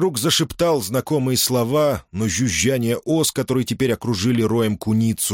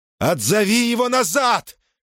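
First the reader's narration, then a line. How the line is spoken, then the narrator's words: Shout. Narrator (Russian): крикнул Орфей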